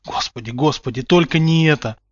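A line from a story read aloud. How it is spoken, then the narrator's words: Horrified whisper. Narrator (Russian): прошептал Поттер, поднимая на кузена расширенные в ужасе глаза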